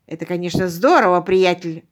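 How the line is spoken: Viking barking. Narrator (Russian): рявкнул викинг

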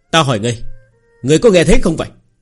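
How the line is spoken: Slightly annoyed. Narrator (Vietnamese): Người kia hơi tức giận

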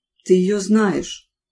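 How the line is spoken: Weary. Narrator (Russian): устало добавил отец

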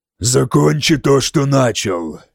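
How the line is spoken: Growled. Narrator (Russian): прорычал Харальд

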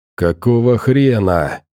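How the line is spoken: Hiss. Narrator (Russian): прошипел сталкер

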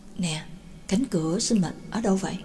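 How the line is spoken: Soft question. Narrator (Vietnamese): Nhạc Dương khẽ hỏi Na Thâm

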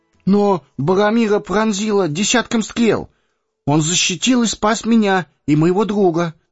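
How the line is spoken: Babbling, faltering. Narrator (Russian): пролепетал Пипин

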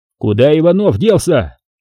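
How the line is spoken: Yelled. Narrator (Russian): заорал Виктор

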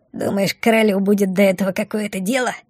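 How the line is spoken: Snorting. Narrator (Russian): Фыркнула Бумба

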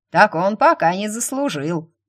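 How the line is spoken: Snort. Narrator (Russian): хмыкнула Марта

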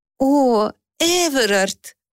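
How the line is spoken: Breathless. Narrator (Russian): выдохнула она

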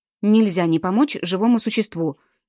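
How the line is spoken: Angry mutter. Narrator (Russian): сердито буркнул Петр

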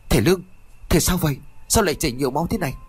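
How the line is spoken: Frantic calling. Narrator (Vietnamese): Y Điêng liền gọi rối rít

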